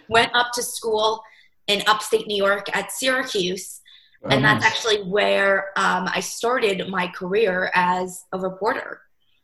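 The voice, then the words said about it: New Jersey accent. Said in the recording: “I'm originally from New Jersey, if you can't tell my accent.”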